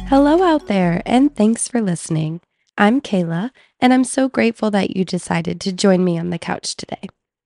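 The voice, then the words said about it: Slightly congested, cold-affected voice. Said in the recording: “You may be able to tell that I have a little bit of a cold”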